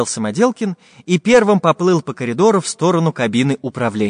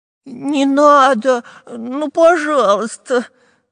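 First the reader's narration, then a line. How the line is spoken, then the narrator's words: Whimpering. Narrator (Russian): захныкал Дырка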